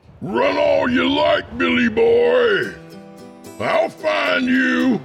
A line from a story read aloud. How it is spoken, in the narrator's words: he yelled into the desert